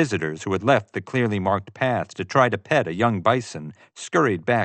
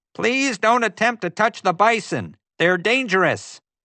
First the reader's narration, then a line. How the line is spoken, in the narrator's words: she suddenly turned and shouted